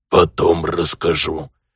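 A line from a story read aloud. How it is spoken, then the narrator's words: Hoarse whisper. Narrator (Russian): хрипящим шепотом ответил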